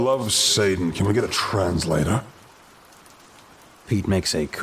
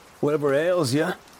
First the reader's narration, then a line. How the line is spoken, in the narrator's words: I exclaimed